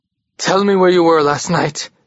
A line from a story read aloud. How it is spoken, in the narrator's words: he panted